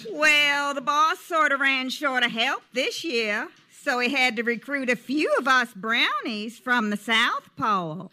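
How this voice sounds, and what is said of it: Southern accent. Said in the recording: “with a southern accent”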